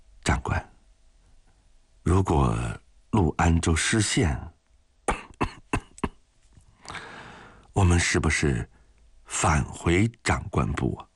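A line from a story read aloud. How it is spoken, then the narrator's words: Soft-spoken. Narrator (Chinese): 汪银庚轻声地说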